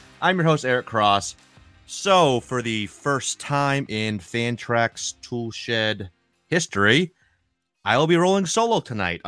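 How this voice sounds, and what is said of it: New England accent. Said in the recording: “It's not the smooth southern accent of Mr. Clegg, of course. More of a, you know, the New England accent isn't quite as beautiful.”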